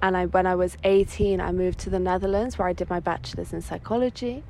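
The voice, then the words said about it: English accent. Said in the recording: “I grew up in England. That's like my my background, where my accent comes from.”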